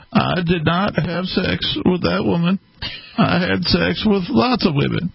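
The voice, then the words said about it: Scratchy Bill Clinton impression. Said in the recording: “a slightly better impression of Bill Clinton ... my voice is a little scratchy”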